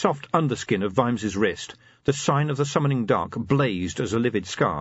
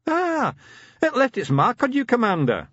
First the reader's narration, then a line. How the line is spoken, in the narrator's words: said the Grag, cheerfully